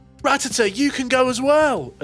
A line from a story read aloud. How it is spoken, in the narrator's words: She nods and she shouts